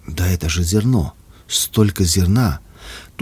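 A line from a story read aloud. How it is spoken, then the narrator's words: Whispered. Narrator (Russian): Луиза прошептала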